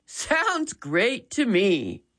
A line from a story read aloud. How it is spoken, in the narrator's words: Dad chuckled